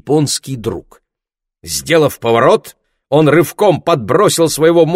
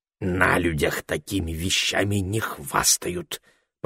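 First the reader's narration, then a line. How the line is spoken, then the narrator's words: Hoarse whisper. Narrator (Russian): проговорил он хриплым шепотом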